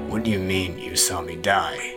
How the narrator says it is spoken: the brawler muttered at length

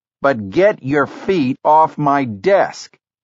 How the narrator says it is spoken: Keenan shouted

